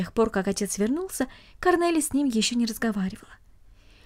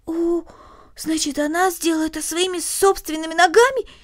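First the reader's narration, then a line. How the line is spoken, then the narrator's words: Exclaiming. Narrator (Russian): воскликнула Корнелли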